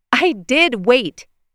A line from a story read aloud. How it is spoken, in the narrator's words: snapped